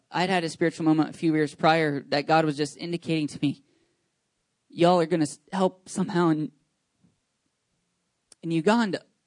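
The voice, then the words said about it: Emotional, choked-up voice. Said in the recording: “I don't know why I'm getting emotional.”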